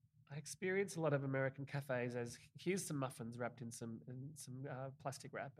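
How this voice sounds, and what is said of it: Non-American accent. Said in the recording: “a non-American with this accent”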